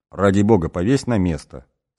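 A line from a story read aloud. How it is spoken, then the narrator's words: Stern. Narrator (Russian): строго сказала Гулюмкан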